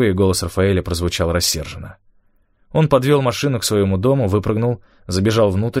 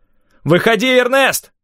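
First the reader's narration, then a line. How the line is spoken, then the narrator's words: Shout. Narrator (Russian): крикнул он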